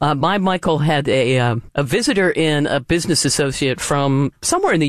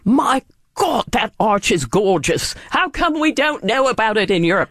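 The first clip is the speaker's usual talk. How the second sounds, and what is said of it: Weak put-on English accent. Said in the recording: “this is my great English accent, which doesn't exist”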